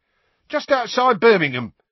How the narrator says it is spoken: said Stan happily

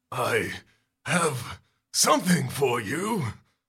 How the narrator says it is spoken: he growls

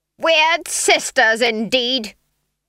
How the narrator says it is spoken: Granny yelled

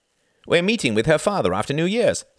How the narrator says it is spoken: said Reginald excitedly

